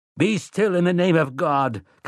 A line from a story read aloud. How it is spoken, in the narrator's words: Callahan cried